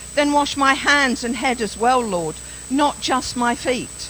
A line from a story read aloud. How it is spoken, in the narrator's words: Simon Peter then exclaimed